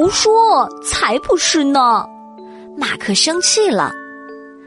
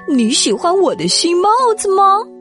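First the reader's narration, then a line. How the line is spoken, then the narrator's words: Calling out. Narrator (Chinese): 马克叫住他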